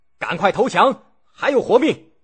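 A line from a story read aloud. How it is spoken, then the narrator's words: Shouting general. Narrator (Chinese): 晋国大将胡射孤喊道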